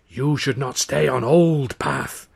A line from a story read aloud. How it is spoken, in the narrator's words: he said in the old woman's rasping voice